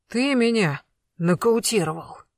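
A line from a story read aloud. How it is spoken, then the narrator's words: Wheezed. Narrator (Russian): просипел Колян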